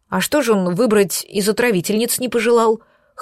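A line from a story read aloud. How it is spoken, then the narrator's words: Scoffing, hiding fear. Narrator (Russian): хмыкнула, пытаясь скрыть свой страх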